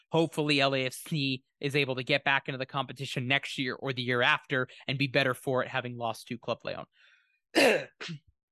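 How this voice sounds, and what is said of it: Slightly hoarse voice. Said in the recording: “I'm overcoming a little bit of a sickness, so my voice is a little bit hoarse,”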